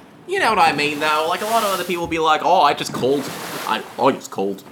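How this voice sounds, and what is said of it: Usual voice. Nothing is said of it.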